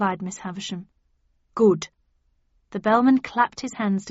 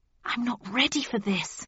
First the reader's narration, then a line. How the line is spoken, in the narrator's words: I hissed